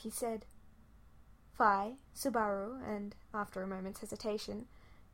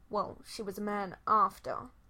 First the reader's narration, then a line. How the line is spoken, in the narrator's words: he grumbled